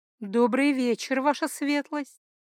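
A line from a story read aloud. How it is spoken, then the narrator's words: Pleasant cooing female voice. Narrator (Russian): Приятный женский голос буквально проворковал обращение к Ральфу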